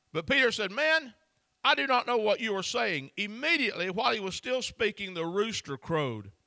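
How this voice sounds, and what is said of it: Rural regional accent. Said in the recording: “he had an accent like I do ... Because the way I talk. Galileans had such a rural, I'm trying to be sweet, accent ... like my accent.”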